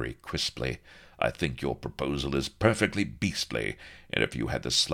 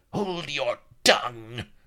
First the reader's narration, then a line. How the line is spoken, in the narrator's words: snarled Sheba